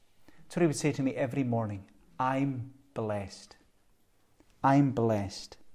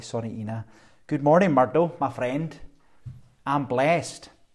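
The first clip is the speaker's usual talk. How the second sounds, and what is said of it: Strong Glaswegian accent. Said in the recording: “with a strong Glaswegian accent”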